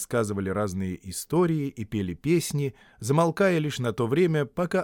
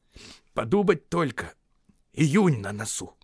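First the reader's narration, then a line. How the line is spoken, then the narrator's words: Grumbling. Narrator (Russian): ворчал Бильбо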